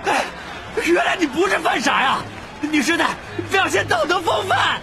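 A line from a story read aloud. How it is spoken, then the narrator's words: Shouting over the noise. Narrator (Chinese): 罗恩在喧哗声中扯着嗓子喊道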